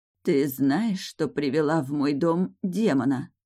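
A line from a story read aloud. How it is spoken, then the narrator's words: Hoarse rasp. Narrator (Russian): Вдруг прохрипела Мариша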